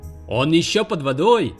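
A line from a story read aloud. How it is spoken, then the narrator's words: Shouted again. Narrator (Russian): снова закричал Волт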